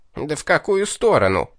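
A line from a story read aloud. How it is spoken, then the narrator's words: Indignant demon outburst. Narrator (Russian): Возмущенно вскинулся бес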